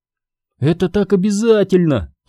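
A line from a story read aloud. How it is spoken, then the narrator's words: Moaning. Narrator (Russian): простонала Сабрина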